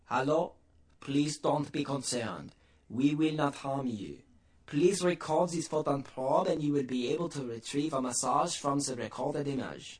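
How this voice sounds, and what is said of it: Clear voice with French accent. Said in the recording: “In a clear voice, and clearly a human voice with a French accent”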